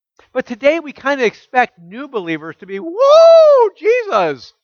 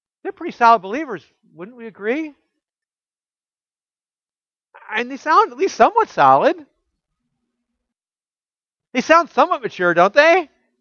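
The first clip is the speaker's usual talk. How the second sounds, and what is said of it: Sarcastic tone. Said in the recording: “I'm being sarcastic.”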